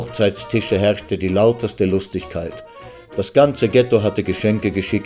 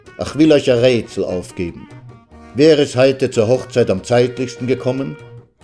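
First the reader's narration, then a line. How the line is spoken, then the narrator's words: Calling out. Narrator (German): rief er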